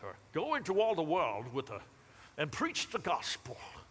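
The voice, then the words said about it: Put-on British accent. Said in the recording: “You should really do it with like a British accent.”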